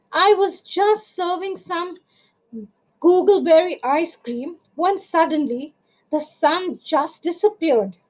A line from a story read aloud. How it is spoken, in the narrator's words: cried Miss Pink Cat to Tessie Bear